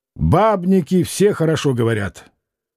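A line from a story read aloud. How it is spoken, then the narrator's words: Fairly loud. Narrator (Russian): Толстая женщина сказала довольно громко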